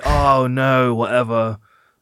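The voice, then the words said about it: Imitates another person's voice. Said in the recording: “that was a good impression of me”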